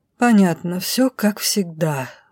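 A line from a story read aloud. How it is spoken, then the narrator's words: Sigh. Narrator (Russian): вздохнула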